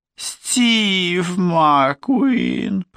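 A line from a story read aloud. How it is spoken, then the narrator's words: Mumbled in quiet nasty voice. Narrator (Russian): пробубнила она тихим и гадким голосом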